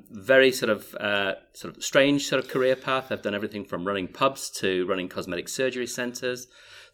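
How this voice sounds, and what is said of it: Yorkshire English accent. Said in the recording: “my dulcet tones, originally from the People's Republic of Yorkshire in the UK ... still haven't lost my accent”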